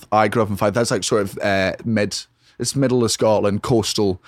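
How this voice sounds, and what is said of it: Far-north Scottish accent. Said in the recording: “Where are you from in Scotland? ... My accent's from as far north as you can go.”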